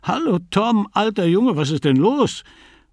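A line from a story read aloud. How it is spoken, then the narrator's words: Called out. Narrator (German): rief er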